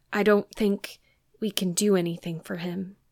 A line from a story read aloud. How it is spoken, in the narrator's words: said gravely